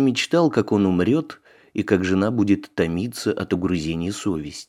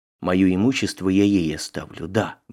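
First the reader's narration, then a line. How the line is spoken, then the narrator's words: Muttering. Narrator (Russian): бормотал он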